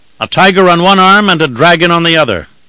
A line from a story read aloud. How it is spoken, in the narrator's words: Mord Kerr called out